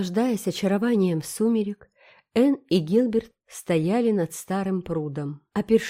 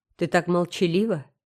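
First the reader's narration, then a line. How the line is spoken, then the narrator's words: Plain. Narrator (Russian): сказал наконец Гилберт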